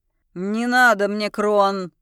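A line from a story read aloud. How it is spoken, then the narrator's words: Growling. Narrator (Russian): продолжает рычать Максан Орих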